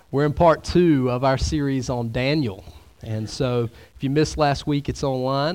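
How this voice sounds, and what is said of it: Deeper, sick-sounding voice. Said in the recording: “My voice is a little bit more depth to it today... The sickness has made me sound a little more sophisticated”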